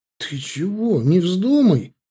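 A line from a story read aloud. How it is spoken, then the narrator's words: Frightened exclamation. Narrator (Russian): воскликнул испуганно Славка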